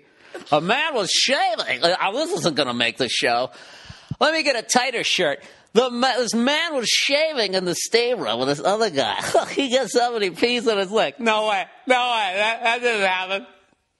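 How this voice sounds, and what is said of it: TMZ gossip show reporter impression. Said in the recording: “That's my TMZ impression.”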